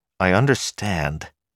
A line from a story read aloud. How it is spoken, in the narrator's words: Bill Calamine said irritably